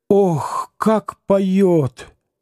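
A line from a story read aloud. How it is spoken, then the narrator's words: Slow speech. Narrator (Russian): медленно проговорила она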